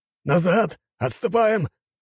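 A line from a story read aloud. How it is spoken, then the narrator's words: Shouted. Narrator (Russian): прокричал он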